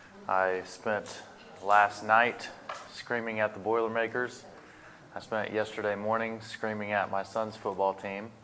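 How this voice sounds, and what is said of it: Hoarse, strained voice. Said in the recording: “my voice is a little hoarse than normal ... I've spoken and screamed more in the last 24 hours than I'm normally used to”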